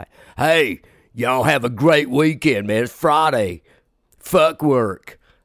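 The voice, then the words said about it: Rock radio DJ voice. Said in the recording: “I like my rock radio voice guy.”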